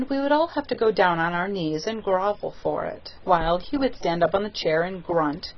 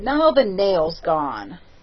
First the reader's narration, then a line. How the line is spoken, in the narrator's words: he would say in an injured tone